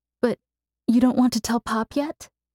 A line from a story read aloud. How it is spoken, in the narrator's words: She asked, not quite hiding the sentimental quaver of her voice